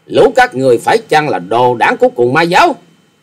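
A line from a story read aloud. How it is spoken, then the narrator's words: Furious loud shout. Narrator (Vietnamese): Hoa Sĩ Kiệt giận dữ thét to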